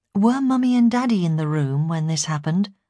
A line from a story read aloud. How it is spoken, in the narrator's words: I asked